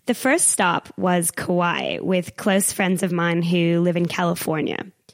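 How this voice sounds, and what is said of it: American accent. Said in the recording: “I spent most of October in the States, which you can probably tell from my accent is where I grew up”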